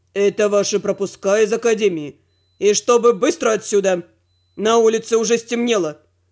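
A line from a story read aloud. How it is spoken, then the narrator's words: Gloomy announcement. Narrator (Russian): мрачно сообщил куратор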